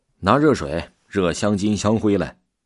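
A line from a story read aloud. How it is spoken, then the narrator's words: Loud man. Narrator (Chinese): 男子大声说道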